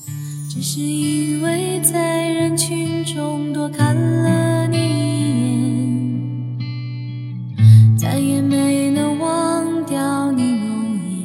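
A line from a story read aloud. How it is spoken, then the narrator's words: Slow singing. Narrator (Chinese): 慢慢的开口唱道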